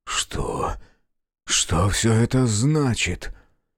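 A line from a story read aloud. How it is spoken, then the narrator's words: Whisper. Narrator (Russian): прошептал он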